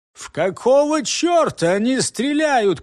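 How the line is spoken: Shout. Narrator (Russian): крикнул капитан

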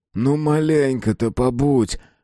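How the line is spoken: Pleading. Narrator (Russian): почти взмолился Неушев

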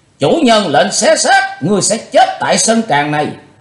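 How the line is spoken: Group shouting in unison. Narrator (Vietnamese): Cả bọn đông đảo đồng thời quát to lớn

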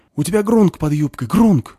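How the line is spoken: Panicked whisper-shout. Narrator (Russian): вдруг паническим шепотом кричит ей в ухо гномиха

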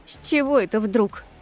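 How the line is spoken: Snorting, suppressing laughter. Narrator (Russian): фыркнула я, стараясь не рассмеяться ему в лицо

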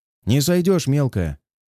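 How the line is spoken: Amused snort. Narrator (Russian): хмыкнул Илья

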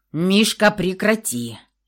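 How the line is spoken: Barked shout. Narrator (Russian): рявкнул Алексей

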